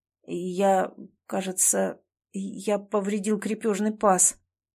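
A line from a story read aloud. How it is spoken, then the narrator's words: Strained out. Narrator (Russian): наконец выдавил он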